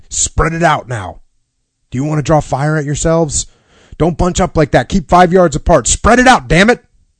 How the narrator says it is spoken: The lieutenant kept yelling at them

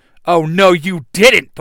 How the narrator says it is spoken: the White Ranger yells

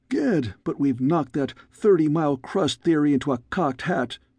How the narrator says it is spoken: he cried gleefully

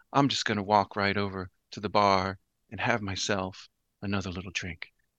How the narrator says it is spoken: quietly puts the cards back in front of the dealer and says

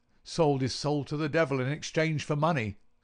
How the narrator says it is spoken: says Warner

